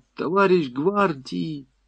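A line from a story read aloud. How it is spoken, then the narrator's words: Whisper. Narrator (Russian): на шепот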